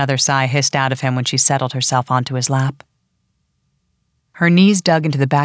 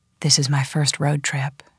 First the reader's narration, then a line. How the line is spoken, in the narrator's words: whispered in his ear